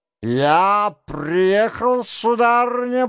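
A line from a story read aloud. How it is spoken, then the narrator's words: Booming trumpet-like voice. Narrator (Russian): прогремел был он, как в трубу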